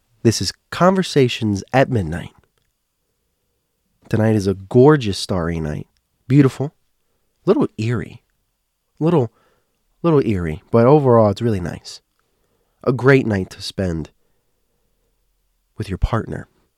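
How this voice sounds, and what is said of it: Congested, slightly off voice. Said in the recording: “my voice is a little off ... I'm just getting over the cold ... I have some sort of congestion”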